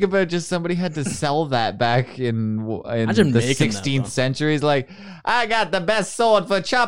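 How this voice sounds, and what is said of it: Usual voice. Nothing is said of it.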